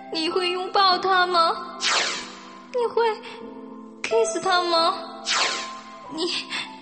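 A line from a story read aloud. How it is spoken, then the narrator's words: Tearful question. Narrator (Chinese): 郑清音哭哭啼啼的问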